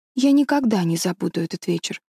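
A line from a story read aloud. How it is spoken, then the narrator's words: Plain. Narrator (Russian): сказала Мэри Голд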